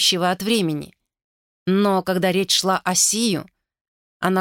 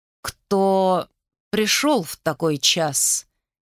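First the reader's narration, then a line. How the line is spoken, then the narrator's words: Low slow voice. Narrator (Russian): Низким медлительным голосом вопросила Сагул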